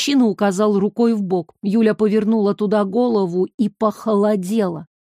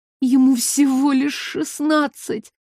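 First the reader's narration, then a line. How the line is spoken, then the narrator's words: Frightened whisper. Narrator (Russian): испуганно прошептала она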